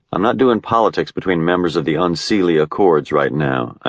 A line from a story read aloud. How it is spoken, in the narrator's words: I said